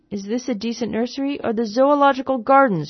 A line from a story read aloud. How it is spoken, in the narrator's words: inquired angrily